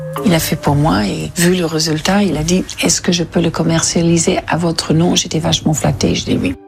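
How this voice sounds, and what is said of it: Slight English accent. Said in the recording (French): “le petit accent anglais”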